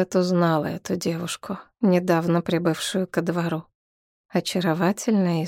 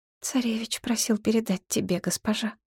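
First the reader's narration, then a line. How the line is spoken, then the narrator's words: Quiet servant speaking. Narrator (Russian): тихо проговорила служанка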